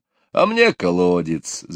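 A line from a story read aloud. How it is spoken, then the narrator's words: Laughing. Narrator (Russian): засмеялся папа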